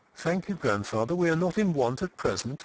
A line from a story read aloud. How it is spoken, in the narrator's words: she said coldly